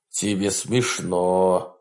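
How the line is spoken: Grumbling. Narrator (Russian): проворчал Вебстер

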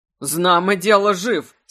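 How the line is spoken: Laughing. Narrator (Russian): смеясь, отвечал он

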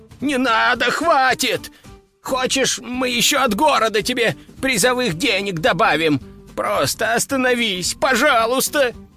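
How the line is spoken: Howling plea. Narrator (Russian): взвыл мэр

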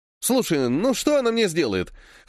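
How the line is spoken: Wry snort. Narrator (Russian): хмыкнул Владик

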